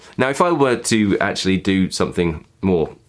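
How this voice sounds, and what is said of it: Usual voice. Nothing is said of it.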